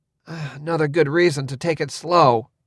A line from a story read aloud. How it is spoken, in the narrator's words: Cord muttered